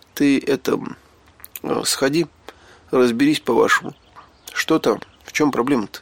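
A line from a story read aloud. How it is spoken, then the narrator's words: Slightly trembling voice. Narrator (Russian): чуть дрогнувшим голосом попросил я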